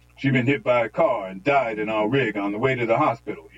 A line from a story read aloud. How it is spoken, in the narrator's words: he cried